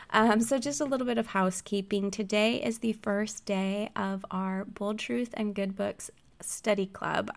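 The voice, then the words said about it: Husky, slightly out-of-it voice. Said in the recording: “I don't sound that great ... So if I sound a little out of it, if I sound a little husky”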